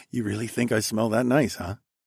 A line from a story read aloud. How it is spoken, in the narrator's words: I chuckled quietly